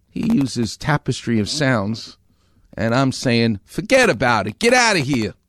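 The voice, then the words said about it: New York accent. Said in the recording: “I have a Far Rockaway New York accent.”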